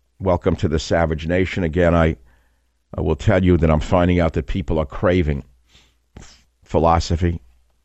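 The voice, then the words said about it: Gruff New York accent. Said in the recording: “the New York longshoreman's gruff accent”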